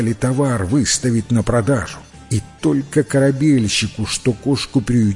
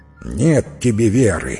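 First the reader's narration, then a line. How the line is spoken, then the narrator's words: Angry grumbling. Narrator (Russian): сердито проворчал корабельщик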